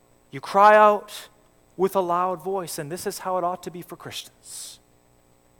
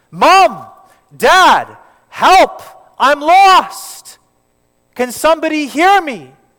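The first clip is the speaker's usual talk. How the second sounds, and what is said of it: Loud shouting for help. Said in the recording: “You should cry out with a loud voice for your parents to hear you.”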